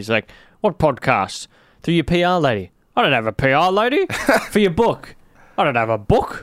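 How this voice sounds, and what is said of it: Impression of Jeff Kennett. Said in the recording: “That's a good impression of Jeff Kennett”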